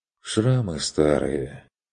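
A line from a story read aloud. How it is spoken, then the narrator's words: Heavy, sorrowful sigh. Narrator (Russian): Стрик тяжело вздохнул, словно получивший печальное известие родственник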